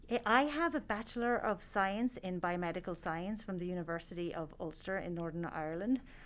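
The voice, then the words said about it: Irish accent. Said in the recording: “If your accent didn't give it away”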